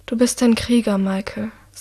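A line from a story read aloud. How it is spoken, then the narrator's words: Said quietly. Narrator (German): sagt sie leise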